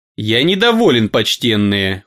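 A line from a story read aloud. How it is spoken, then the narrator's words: Cold tone. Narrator (Russian): холодно в тон Сежес сказал он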